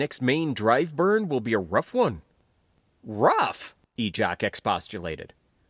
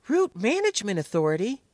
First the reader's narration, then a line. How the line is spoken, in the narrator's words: Guy exclaimed